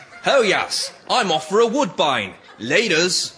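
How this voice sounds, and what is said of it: Affected put-on accent. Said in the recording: “That accent is to die for.”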